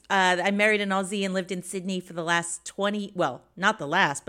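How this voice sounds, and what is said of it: American accent. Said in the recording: “You'll notice the accent. I grew up in the States.”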